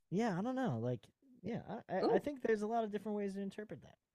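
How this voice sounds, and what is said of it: Loose Southern Virginia accent. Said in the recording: “It's like a Southern, but it's also like ... I probably have a pretty gnarly VB accent ... are you from Philly? ... maybe it's like a Southern Philadelphia accent ... Because it's kind of loose”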